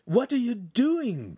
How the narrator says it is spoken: Pan cried

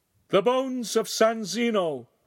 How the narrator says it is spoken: one of the priests cried

